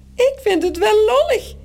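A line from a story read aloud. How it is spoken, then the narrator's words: Squeaking in another's voice. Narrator (Dutch): piept Morrel met de stem van Toos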